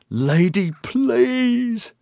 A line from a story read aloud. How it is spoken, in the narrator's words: Oberon wailed